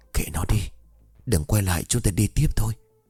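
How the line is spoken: Trembling whisper. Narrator (Vietnamese): Hương run rẩy thì thầm

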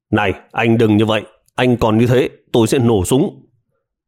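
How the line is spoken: Urgent shout. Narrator (Vietnamese): khẩn trương quát lên

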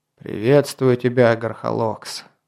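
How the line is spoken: Weary speech. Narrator (Russian): устало проговорил Константин

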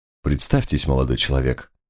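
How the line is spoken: Quiet demand. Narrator (Russian): тихо потребовал инспектор

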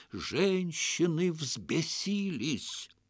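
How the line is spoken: Frightening whisper. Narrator (Russian): Хаджа закатил глаза и страшным шепотом пояснил

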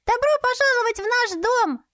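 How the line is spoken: Cheerful shout. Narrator (Russian): весело крикнул Фель

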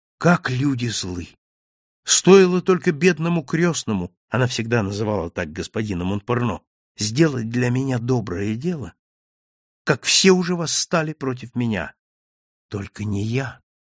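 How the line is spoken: Tender. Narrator (Russian): нежно произнес я

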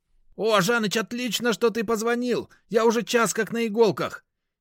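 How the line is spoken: Very agitated interruption. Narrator (Russian): перебил меня Веник весьма взволнованным голосом

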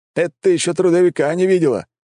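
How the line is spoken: Exclamation. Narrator (Russian): воскликнул Рикарио

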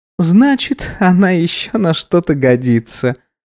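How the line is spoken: Mocking tone. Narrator (Russian): насмешливо произнесла Эсмира

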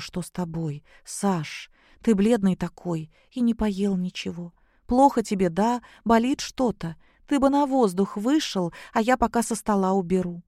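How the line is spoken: Frightened question. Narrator (Russian): Наташа спросила, испуганно

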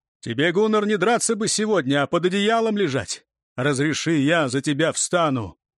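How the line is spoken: Loud, foreign language. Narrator (Russian): Асмунд, не сдержавшись, сказал громко, по-урмански

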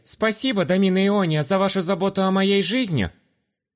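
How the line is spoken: Loud and expressive. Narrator (Russian): Громко и выразительно сказал я, чтоб меня слышали и окружающие

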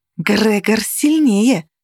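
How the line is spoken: Hissed. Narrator (Russian): зашипела Каннель

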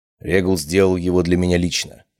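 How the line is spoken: Plain. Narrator (Russian): ответил я

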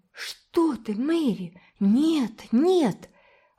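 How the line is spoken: Horrified exclamation. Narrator (Russian): воскликнула Уна в ужасе

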